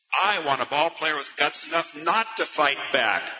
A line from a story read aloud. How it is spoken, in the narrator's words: Ricky exclaimed almost savagely